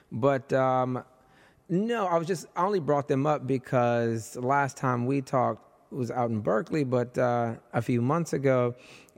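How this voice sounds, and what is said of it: Strained, nearly lost voice. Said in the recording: “losing my voice because I've been yapping all day since about 12 o'clock ... My voice is almost gone”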